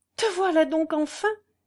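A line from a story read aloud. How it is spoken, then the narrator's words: Joyful cry. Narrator (French): s'écria-t-elle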